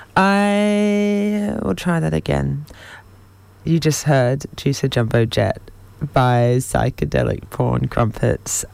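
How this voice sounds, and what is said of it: Voice not quite working, not warmed up. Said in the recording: “My voice is still not quite working this morning. I thought that I was warmed up already”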